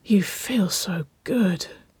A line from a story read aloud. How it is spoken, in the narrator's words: Waverley breathed, the shaky words almost a whimper